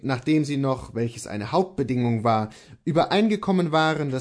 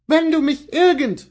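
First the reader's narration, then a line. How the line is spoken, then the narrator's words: Called out. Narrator (German): rief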